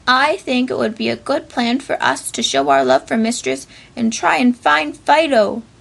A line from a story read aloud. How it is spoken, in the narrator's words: exclaimed Raggedy